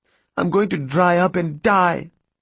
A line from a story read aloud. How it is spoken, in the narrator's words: she cried